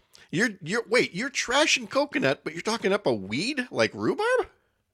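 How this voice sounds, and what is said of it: Voice rising high in pitch. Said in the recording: “See how high my voice got? ... my voice went up here”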